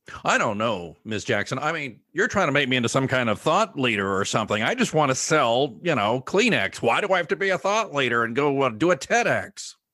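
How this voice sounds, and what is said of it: Impression of a reluctant client. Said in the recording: “Here, I'll play the client. ... Was that a good impression of a client?”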